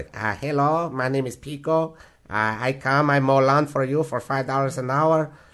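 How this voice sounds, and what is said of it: Put-on Mexican accent. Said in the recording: “I love doing voice impersonations ... doing the Mexican voice”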